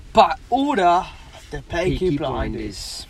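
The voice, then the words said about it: Attempted English accent. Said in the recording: “I wanna do English ... From where? ... from Peaky Blinders ... I can't do any other accent when I'm drunk”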